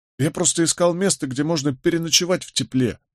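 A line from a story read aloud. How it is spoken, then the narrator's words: Sobbing. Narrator (Russian): всхлипнул он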